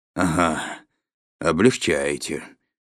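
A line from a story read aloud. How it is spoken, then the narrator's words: Gloomy. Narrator (Russian): мрачно сказал дядя Валя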